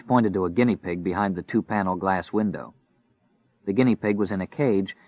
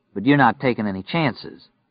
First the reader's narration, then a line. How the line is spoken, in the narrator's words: Stu said dryly